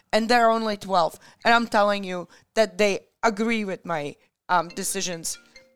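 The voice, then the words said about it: Strained, hoarse voice. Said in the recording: “losing my voice because I'm screaming at everybody”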